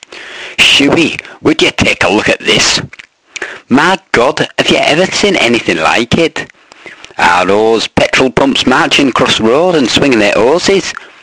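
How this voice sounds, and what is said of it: Put-on Scottish accent. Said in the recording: “in a sort of Scottish accent, I'd presume. I'm not sure really what it is”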